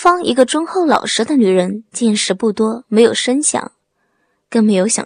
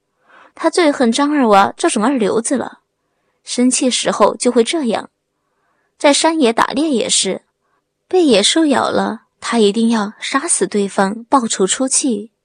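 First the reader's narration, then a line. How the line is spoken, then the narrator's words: Forced dry laugh. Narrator (Chinese): 刘波干笑两声，牵强地说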